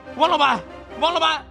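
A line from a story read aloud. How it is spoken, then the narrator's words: Calling out repeatedly. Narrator (Chinese): 黄金龙怎么叫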